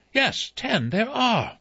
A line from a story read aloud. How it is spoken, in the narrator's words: Vera cried